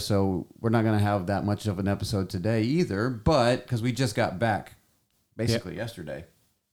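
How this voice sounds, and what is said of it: Hoarse, strained voice. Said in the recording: “my voice is a little shot because... been yelling a lot”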